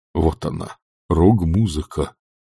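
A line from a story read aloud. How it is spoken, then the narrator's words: Sighed. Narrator (Russian): вздохнул декан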